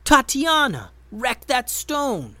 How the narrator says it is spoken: Benben yelled

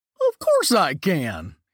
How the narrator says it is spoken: he answered excitedly

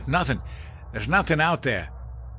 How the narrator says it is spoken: snapped

